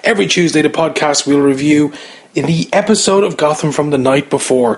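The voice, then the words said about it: Irish accent. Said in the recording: “that accent is an Irish one”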